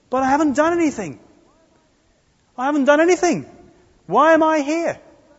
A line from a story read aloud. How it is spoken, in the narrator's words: yelling